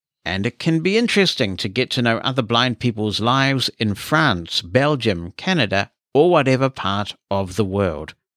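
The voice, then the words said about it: Hungarian accent in English. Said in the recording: “my Hungarian accent”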